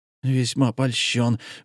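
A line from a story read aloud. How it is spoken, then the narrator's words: Forced through gritted teeth. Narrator (Russian): выдавил сквозь зубы комендант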